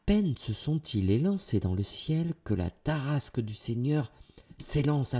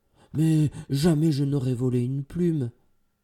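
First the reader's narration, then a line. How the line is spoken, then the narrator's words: Exclaimed. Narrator (French): s'exclame Valentine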